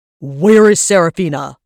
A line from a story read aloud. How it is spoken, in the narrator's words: Varys boomed